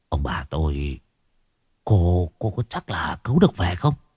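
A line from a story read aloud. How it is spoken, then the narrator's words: Frowning old man's mutter. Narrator (Vietnamese): Lão Đâm cau mày lẩm bẩm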